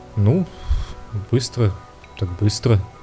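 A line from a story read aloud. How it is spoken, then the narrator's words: Muttering. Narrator (Russian): бормотал Лоис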